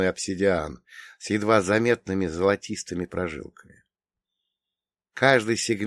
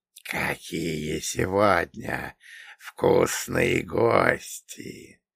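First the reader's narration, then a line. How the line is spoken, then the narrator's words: Hissing, clicking whisper. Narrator (Russian): прошептала она, и ее голос был похож на шипение шелка, смешанное с щелчками мандибул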